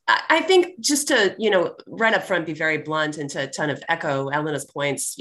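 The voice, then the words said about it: Slightly hoarse voice. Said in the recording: “I'm getting over a cold, so my voice is a little hoarse than it would normally be”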